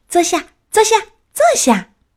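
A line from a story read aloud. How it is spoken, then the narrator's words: Calling out. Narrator (Chinese): 劳拉也叫着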